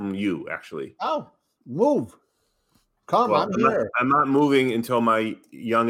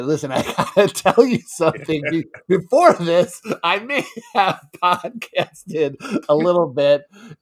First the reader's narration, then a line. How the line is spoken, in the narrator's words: laughed and she said